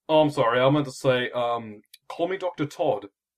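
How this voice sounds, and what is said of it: Badly done put-on accent. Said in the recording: “Yeah, I know he's a really shitty accent. ... Eh, I've heard worse.”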